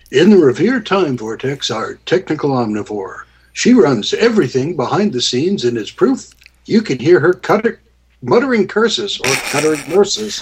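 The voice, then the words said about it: Mock radio announcer voice. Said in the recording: “I'm going to put my radio voice on ... How's the radio voice working out for you? ... it kind of blows.”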